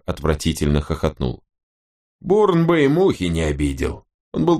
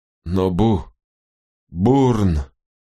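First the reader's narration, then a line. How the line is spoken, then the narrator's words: Babbling young man. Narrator (Russian): залепетал молодой человек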